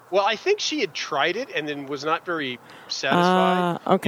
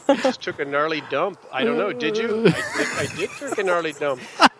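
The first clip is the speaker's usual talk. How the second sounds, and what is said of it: Bad Irish accent, sounds Scandinavian. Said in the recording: “your Irish accent... Oh yeah, it's terrible. It's actually more Scandinavian... There's really a lot of going up. They just kind of ended. Everything's a question. It comes up.”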